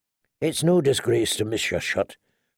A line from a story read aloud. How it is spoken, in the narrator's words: her uncle told her quietly